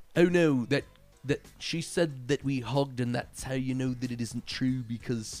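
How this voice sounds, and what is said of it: Bad put-on British accent. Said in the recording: “I don't know why it sounds like Ringo in this ... Literally like the worst British accent.”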